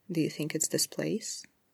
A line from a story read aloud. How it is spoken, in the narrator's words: Oscar asked